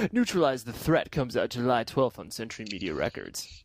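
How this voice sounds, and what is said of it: Radio DJ announcer voice. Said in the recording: “here's my DJ voice again”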